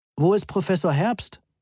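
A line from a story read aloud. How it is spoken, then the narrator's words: Loud question. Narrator (German): fragte Moni laut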